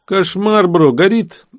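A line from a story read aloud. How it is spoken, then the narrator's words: Loud sigh, yelling in ear. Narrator (Russian): Данила шумно вздохнул и заорал на ухо Владе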